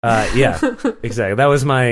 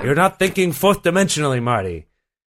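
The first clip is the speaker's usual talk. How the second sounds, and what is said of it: Christopher Lloyd impression. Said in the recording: “my Christopher Lloyd impression ... your terrible Christopher Lloyd impression”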